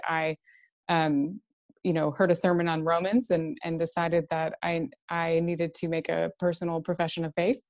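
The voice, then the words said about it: Texas accent. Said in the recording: “In Texas, my accent will probably give me away pretty quickly.”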